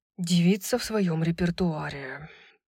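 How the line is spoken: Grumble. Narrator (Russian): проворчал Хант

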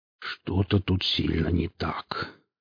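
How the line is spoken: Muttered. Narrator (Russian): пробормотал он

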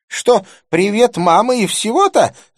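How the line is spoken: Shrieking. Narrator (Russian): завопила она

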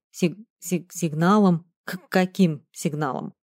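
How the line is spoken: Nervous stammering. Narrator (Russian): От волнения я начал заикаться

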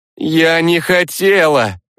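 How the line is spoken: Shouting while facing away. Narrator (Russian): не оборачиваясь, прокричала Сванна

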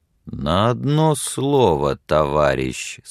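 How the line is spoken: Slow and quiet. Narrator (Russian): сказал Билли медленно и тихо

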